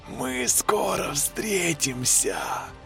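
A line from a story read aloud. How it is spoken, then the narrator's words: Eerie double voice. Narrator (Russian): сказала Лена двойным голосом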